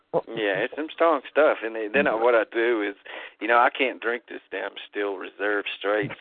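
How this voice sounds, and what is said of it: Southern American accent. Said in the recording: “the strangest ... Accent ... a southern accent”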